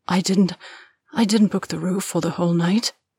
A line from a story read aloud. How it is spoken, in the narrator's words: Deborah gasps